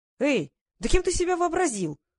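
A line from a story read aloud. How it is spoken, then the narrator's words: Yell. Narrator (Russian): завопил Квиллер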